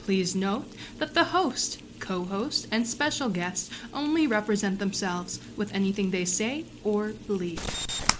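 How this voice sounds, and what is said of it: Formal announcer-style voice. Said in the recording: “An excellent announcer voice, too.”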